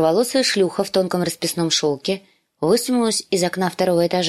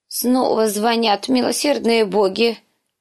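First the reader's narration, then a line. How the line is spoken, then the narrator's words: Old woman groaning. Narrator (Russian): простонала старуха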